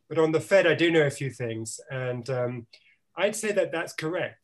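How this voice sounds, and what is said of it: Non-American accent. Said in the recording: “you can tell by my accent, I didn't grow up in Arkansas”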